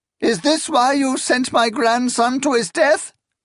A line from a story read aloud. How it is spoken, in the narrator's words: she cried